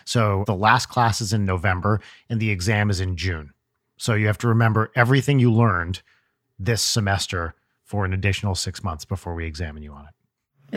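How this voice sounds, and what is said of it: British accent. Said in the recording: “in typical British fashion, of course, you can tell from my accent”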